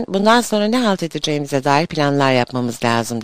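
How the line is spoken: Plain. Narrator (Turkish): dedi

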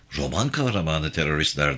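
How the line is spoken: Plain. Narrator (Turkish): dedi Rose

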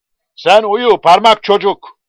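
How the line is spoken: Shouting. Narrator (Turkish): diye bağırmıştı

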